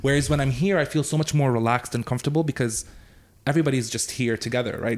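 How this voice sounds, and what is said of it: North American English accent. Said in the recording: “in English, it's very North American rather than being more French European like it is”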